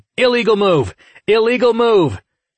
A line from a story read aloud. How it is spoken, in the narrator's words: Cervantes shouted